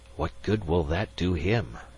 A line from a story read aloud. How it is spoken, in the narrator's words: Magnan whispered, looking nervous